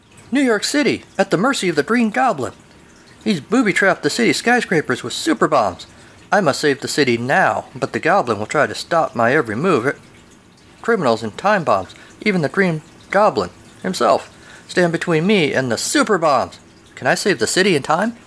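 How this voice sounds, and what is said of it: Awkward teenage superhero voice. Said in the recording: “this is my best Spider-Man voice ... I sound like an awkward teenager suddenly turned superhero”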